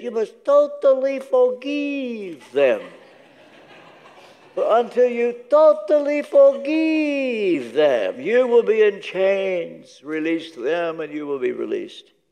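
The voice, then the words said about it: Imitated Romanian accent. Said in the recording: “If I dare mimic his Romanian accent.”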